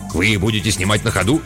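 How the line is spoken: Plain. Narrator (Russian): спросил водитель

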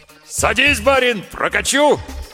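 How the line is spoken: Dashing loud bark. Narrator (Russian): с неожиданной лихостью гаркнул извозчик

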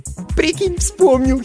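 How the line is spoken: Giggled. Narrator (Russian): хихикнула Сонька

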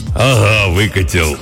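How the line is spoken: Hoarse deep bass. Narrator (Russian): ответил индеец хриплым басом

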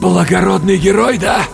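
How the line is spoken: Forced, strained. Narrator (Russian): выдавил я

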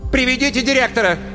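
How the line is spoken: Shout. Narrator (Russian): крикнула Светлана Семеновна

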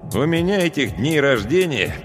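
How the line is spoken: Grumbling. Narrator (Russian): проворчал я

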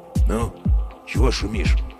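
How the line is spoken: Quiet. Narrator (Russian): спросил он тихо

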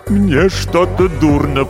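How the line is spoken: Moaning. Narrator (Russian): простонал писатель

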